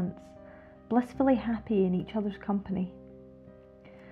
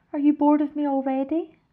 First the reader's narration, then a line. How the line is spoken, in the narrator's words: she whimpered